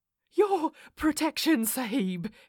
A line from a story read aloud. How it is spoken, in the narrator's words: he panted